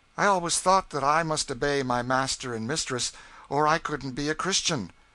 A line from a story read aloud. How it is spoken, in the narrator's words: said Eliza mournfully